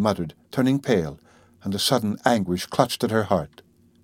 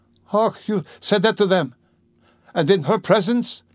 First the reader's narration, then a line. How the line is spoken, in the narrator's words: cried Sonia, frightened